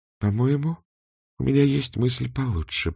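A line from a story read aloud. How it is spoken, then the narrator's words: Mutter. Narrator (Russian): пробормотала она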